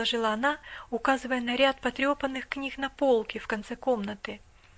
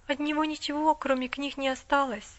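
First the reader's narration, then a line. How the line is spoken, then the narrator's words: Timid. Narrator (Russian): робко сказала миссис Мёрфи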